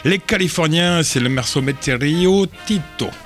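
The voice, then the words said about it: Put-on Mexican accent. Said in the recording (French): “J'adore ton accent mexicain ... ça ressemble bien”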